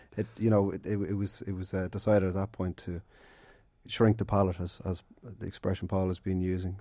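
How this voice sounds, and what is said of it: Congested voice, noticeable accent. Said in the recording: “Sorry, I have a bit of a cold. ... You also have this funny accent.”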